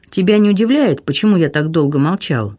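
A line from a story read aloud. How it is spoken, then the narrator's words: Plain. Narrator (Russian): спросил Алане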